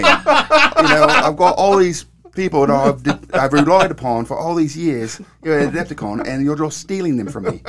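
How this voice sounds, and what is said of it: Put-on British accent. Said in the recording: “that's my best British accent. ... It was not bad. ... if that was a bad accent,”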